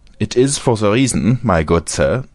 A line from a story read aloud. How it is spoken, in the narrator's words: said he, speaking with a German accent